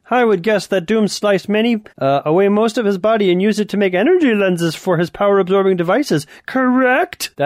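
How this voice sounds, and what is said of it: Superior, accusatory character voice. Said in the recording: “That's how Mr. Fantastic talks from now on. I'm much better than you, much smarter, and very accusatory when I speak. ... He sounds like Nightcrawler without the accent.”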